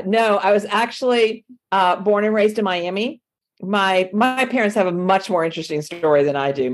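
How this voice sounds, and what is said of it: Slight southern accent. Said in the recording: “I hear a little bit of a southern accent in your voice.”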